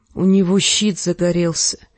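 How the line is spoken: Quiet. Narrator (Russian): тихо выговорил Джендри

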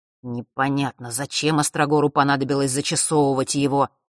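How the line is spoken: Muttering. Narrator (Russian): вновь пробурчал он

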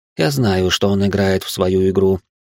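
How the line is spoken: Plain. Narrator (Russian): ответила тень

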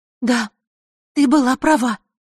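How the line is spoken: Agitated, excited. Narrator (Russian): взволнованно произнесла

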